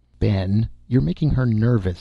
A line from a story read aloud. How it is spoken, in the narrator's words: Sally's mother said, laughing